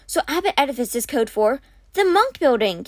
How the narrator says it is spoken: Kate cried

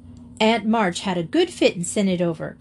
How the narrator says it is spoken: cried Jo with a sudden inspiration

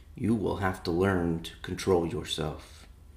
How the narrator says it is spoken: he said gently

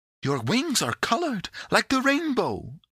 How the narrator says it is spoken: exclaimed Pandora

